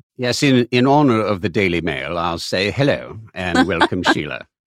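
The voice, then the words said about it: Put-on British accent. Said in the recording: “Is that best British accent? ... It's pretty good.”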